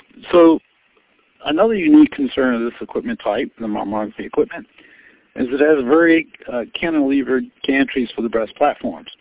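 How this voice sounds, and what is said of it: Hoarse, fading voice. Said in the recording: “I lose my voice a little bit”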